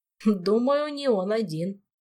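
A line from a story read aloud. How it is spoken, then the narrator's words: Snorting chuckle. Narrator (Russian): хмыкнул Толик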